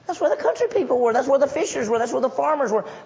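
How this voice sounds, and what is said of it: Mississippi Southern accent. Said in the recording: “Can y'all tell if I'm from Mississippi? You can. I have an accent.”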